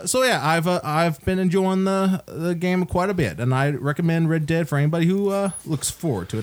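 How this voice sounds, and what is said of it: Put-on accent. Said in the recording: “I was waiting for that accent to end... forcing that accent on people”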